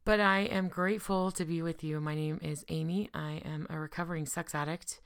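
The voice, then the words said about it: Sick, rough voice. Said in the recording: “I'm sick, so my voice is a little crazy today”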